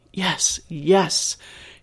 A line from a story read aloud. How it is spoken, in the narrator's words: hissed Mitchell